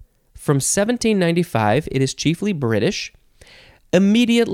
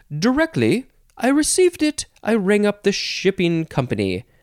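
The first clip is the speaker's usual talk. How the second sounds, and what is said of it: Poor put-on British accent. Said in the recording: “I feel like I said that weird, in addition to my terrible British accent.”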